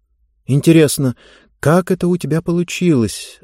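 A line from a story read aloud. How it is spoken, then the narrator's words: Puzzled mutter. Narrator (Russian): озадаченно пробормотала Занна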